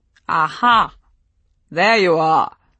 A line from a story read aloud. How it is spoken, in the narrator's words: boomed a great voice behind me